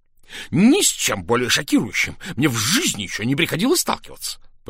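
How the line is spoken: Shrieking. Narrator (Russian): провизжал он

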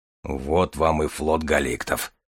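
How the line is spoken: Grumbling. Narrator (Russian): проворчал Железовский

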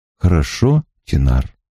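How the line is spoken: Grim and calm. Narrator (Russian): сказал Гет мрачно и спокойно

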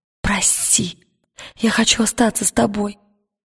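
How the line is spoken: Whisper. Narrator (Russian): прошептала она

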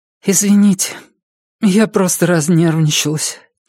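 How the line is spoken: Quiet. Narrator (Russian): тихо сказала она

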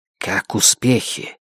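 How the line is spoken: Hissing with restrained anger. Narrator (Russian): Она зашипела сквозь зубы, тщательно сдерживая свой гнев

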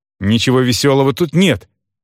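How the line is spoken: Said sharply. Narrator (Russian): резко сказал я

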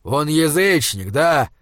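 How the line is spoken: Growl. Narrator (Russian): зарычал Изгримнур

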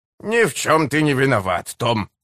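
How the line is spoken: Soothing. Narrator (Russian): успокаивал его Смью

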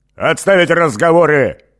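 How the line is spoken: Angry bark. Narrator (Russian): рявкнул Эгин, выходя из себя

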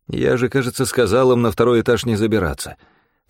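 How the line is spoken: Grumbling. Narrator (Russian): проворчал я

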